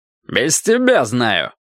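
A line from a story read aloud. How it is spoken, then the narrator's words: Barking. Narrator (Russian): рявкнул Карвер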